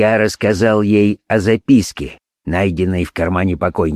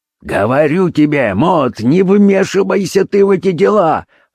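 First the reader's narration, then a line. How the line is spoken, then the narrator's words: Father's irritated shout. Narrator (Russian): раздраженно крикнул отец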